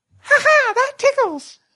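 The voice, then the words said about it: Elmo impression. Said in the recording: “my Elmo impression”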